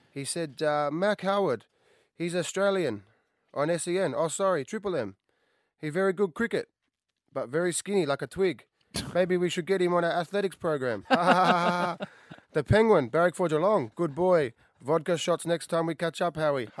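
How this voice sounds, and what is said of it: Put-on Chinese accent. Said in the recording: “the sort of with the Chinese accent”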